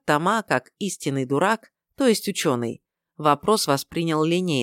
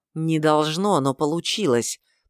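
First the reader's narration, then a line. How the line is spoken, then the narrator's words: Restrained, through gritted teeth. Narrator (Russian): процедил Фридрих, едва сдерживаясь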